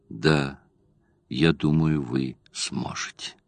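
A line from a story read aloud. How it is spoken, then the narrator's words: Smiling whisper. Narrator (Russian): Джулиан улыбаясь, и прошептала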